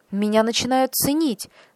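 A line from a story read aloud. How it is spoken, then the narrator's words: Exclamation. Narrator (Russian): воскликнул он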